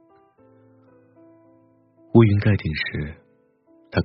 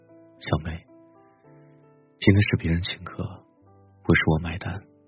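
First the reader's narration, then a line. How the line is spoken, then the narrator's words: Soft, head down. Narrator (Chinese): 埋着头轻声的说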